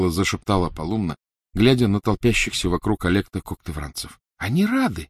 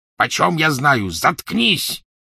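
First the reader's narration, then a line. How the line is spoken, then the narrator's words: Gruff bark. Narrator (Russian): рявкнул грубый голос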